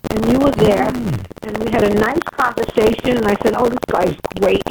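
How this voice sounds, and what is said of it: Brooklyn accent. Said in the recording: “Sounds like you're from Brooklyn.”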